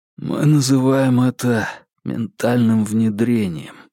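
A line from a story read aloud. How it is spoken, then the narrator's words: Hoarse. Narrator (Russian): хрипло ответил Марк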